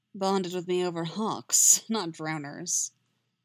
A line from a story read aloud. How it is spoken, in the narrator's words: says, after a particularly loud rumble of thunder